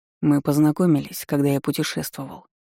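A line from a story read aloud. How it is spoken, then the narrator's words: Reluctant grumble. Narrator (Russian): неохотно буркнул Богдан Андреевич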